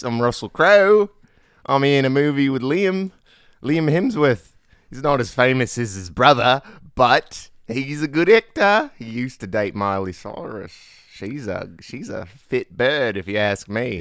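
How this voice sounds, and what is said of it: Put-on Australian accent. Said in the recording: “Russell Crowe doing his Australian accent. It sounds just like this.”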